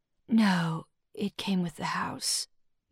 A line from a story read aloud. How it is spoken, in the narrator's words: Millie said, her voice so low it was a surprise that Charmaine could hear her